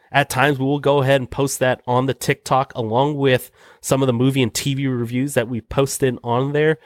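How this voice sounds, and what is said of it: Congested, nasal voice. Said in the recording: “I'm sure you kind of hear it in my voice right now, but been a little under the weather, sound a little bit more congested nasally today”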